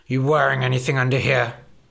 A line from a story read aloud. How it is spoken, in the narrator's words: He grunted